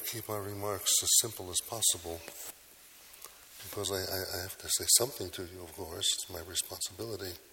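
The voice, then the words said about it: Weak, quiet voice. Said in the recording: “my voice isn't strong enough. I hope you can hear me. ... I've been told repeatedly you're not speaking loud enough.”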